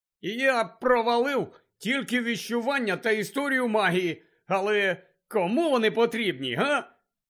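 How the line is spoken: Happy announcement. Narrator (Ukrainian): Радісно повідомив він Гаррі

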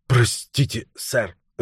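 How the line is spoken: Flustered babbling. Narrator (Russian): залепетал слуга

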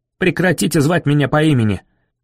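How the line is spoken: Barking. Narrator (Russian): рявкнул он

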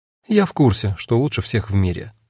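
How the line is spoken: Cold. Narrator (Russian): холодно сказала Агата

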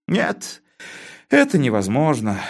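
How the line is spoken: Sigh. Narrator (Russian): вздохнул Константин

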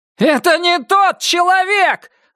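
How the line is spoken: Near-hysterical yelling. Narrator (Russian): заорал Крис на грани истерики

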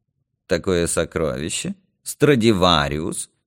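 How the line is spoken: Sarcastic question. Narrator (Russian): язвительно спросил Юрка

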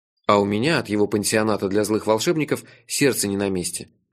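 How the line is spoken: Gloomy. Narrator (Russian): мрачно сказал я

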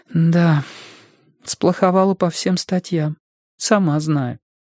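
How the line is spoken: Forced out. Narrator (Russian): выдавила Робин

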